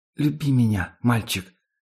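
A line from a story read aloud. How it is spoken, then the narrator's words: Whisper. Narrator (Russian): шепнула она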